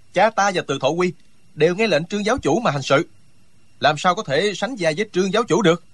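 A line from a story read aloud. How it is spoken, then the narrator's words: Loud, flushed with anger. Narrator (Vietnamese): Hàn Lâm Nhi mặt đỏ gay, nổi cả gân xanh trên trán, lớn tiếng nói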